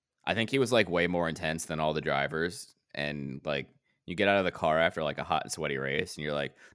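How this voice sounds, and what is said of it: Usual voice. Nothing is said of it.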